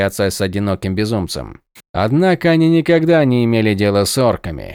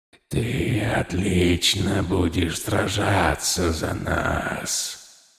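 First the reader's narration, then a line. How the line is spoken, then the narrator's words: Hissing. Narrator (Russian): прошипел он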